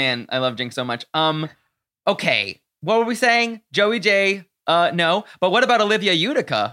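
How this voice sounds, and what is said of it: Usual voice. Nothing is said of it.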